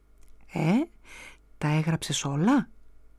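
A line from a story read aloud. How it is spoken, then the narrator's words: Plain. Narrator (Greek): μου λέει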